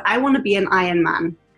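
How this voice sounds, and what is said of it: Attempted American accent. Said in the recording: “That's the best I can do for an American accent.”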